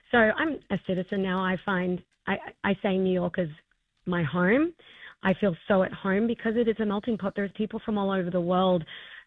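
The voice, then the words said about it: Australian accent. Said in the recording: “as you can hear from my accent. I'm not from here. I grew up in Australia”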